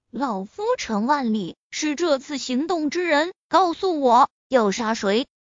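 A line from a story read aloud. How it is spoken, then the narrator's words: Calm old man. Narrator (Chinese): 老人好整以暇的淡淡的说道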